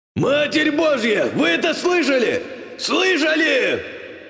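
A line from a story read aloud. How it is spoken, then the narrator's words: Frantic screaming. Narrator (Russian): Надрывался маг, не переставая вопить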